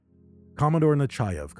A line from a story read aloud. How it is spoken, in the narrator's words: Kampana said